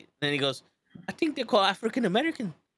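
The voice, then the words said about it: Put-on Scottish accent. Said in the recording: “I don't know why I'm Scottish all of a sudden.”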